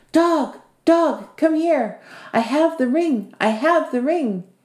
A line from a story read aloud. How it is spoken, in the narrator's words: she shouted